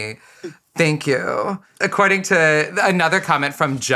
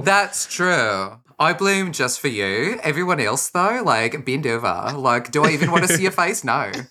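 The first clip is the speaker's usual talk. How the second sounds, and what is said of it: Put-on Australian accent. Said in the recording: “I just wanted to try an Australian accent ... It wasn't bad.”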